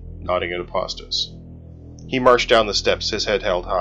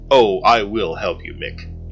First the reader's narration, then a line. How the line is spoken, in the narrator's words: he said